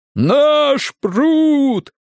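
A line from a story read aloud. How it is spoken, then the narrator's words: Triumphant crowd roar. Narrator (Russian): победоносно взревели кривочцы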